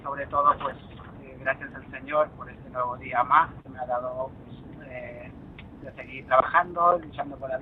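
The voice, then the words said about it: Peruvian Spanish accent, not Madrid. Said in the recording (Spanish): “el acento, mm, castizo, castizo, precisamente no, ¿eh? ... yo soy de Perú”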